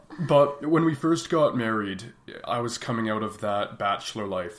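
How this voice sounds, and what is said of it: Deeper, smoother voice from a cold. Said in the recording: “I am just getting over a cold right now... my voice is a little deeper and smoother than normal”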